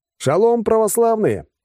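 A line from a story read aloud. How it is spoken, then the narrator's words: Joyful yell on air. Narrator (Russian): радостно заорал я в эфир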